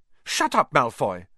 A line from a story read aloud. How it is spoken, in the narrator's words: snapped Parvati Patil